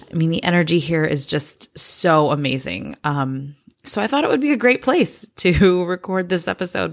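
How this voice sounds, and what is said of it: Slightly hoarse voice. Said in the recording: “my voice is a little bit hoarse. We've been doing some yelling here, so I probably don't sound like I usually do”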